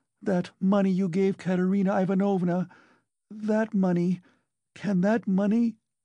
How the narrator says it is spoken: she cried suddenly

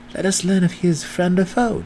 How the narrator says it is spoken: Drizzt whispered

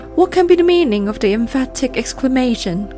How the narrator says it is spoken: cried he

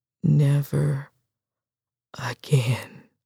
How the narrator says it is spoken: She swallowed hard to relieve the tightness in her throat and whispered again, forcefully

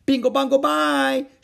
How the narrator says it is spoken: shouted the others above the roar of the vacuum cleaner

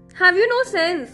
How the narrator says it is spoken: He cried

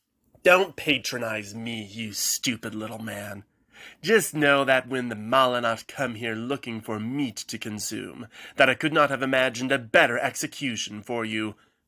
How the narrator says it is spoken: Antial spat

